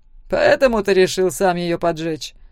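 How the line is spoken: Snort. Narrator (Russian): хмыкнул Зак

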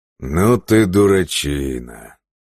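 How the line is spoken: Puzzled drawl. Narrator (Russian): озадаченно протянул Бьорн

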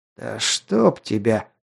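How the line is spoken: Weary wheeze. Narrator (Russian): прохрипел, не в силах даже разозлиться

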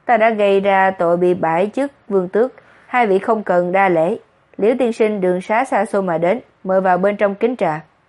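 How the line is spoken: Smiling speech. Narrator (Vietnamese): Nhiếp Hy mỉm cười nói

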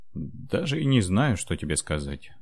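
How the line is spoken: Wry grunt. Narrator (Russian): хмыкнул монах

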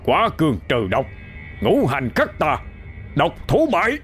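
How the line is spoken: Urgent shouted incantation. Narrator (Vietnamese): miệng hét ra một câu chú khẩn thiết

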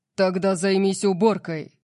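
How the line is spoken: Menacing growl. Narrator (Russian): прорычал Орион, и его тон заставил меня задрожать

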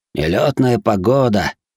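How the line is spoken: Grumbling warriors. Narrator (Russian): ворчали воины Коюмори

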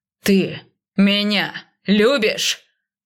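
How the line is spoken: Rough, stressing each word. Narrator (Russian): Грубо подчеркивая каждое слово, снова произнес он

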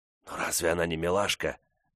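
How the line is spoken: Whispered. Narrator (Russian): шепнул Корнелл Венсу

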